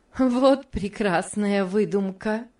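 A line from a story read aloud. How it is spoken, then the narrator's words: Laughing exclamation. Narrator (Russian): воскликнула Мари, смеясь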